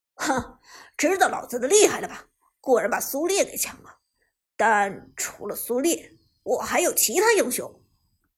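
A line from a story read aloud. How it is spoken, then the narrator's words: Proud, smug. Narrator (Chinese): Lucky 傲然一笑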